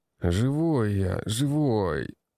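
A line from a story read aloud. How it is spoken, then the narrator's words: Groaning. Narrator (Russian): Простонал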